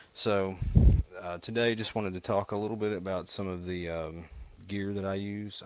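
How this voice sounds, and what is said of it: Hillbilly accent. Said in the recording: “my terrible hillbilly accent”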